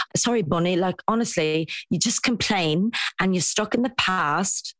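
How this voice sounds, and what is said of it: Poor attempt at posh accent. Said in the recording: “my accent is not posh... This is the worst accent ever”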